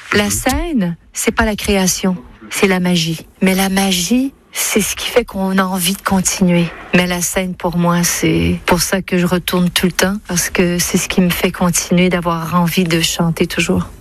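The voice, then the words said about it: Québécois French accent, diphthongized vowels. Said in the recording (French): “dans ses interviews, elle retrouve son accent québécois ... Elle dit la scène avec une sorte de diphtongaison, autrement dit un allongement”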